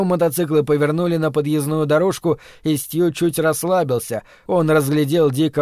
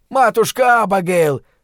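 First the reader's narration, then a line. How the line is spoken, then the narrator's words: Shouting over engines. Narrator (Russian): прокричал Дик, перекрывая рев моторов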